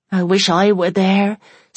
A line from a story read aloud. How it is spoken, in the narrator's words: said Bessie wearily